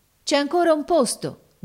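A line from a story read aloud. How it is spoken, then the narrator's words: Sailors shouting. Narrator (Italian): gridarono i marinai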